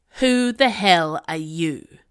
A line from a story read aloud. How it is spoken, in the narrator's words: snarled the dem